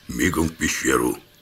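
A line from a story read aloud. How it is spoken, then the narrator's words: Quiet command. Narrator (Russian): тихо скомандовал я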